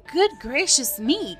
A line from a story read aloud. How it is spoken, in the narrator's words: cried a witch